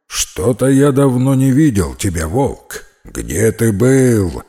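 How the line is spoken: Lion's growl. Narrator (Russian): прорычал лев

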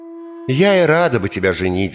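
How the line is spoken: Mother's sigh. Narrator (Russian): вздохнула мать

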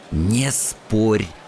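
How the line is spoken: Twins hissing in unison. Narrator (Russian): в один голос зашипели оба близнеца в уши

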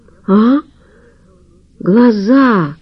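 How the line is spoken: Strained, forced out. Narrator (Russian): выдавил Хохлов

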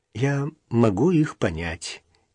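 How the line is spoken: Quiet. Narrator (Russian): тихо сказала Даша

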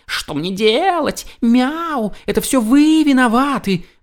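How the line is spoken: Shouted. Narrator (Russian): крикнул он

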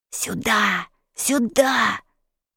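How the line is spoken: Hissing fidget. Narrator (Russian): шипел непоседа

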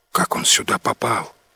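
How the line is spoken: Whispered question. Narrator (Russian): шепотом спросил Ним

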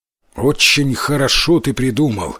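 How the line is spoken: Plain. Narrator (Russian): сказал отец

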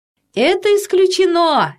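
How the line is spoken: Cheerful doctor. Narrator (Russian): весело сказал детский доктор

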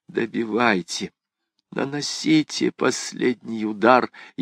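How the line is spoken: Barely audible whisper. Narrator (Russian): Она чуть слышно прошептала

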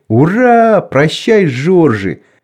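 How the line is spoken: Laughter and crowd shouting. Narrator (Russian): засмеялся, а машинист и другой кондуктор и все кричали

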